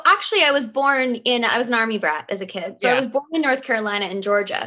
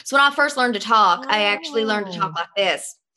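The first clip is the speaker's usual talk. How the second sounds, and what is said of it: Good put-on Southern accent. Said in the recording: “The North Carolina, the Southern ... you're really good at it”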